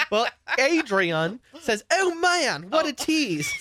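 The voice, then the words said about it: Mixed put-on British-Australian accent. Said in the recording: “Is that your English, your British accent? ... English, Australian, British. ... It's a hodgepodge of them all.”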